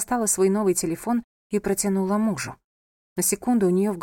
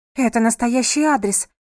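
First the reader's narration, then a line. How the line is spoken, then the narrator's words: Exclaiming. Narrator (Russian): воскликнула она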